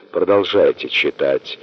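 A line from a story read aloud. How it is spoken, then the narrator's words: Hoarse. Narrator (Russian): хрипло проговорила она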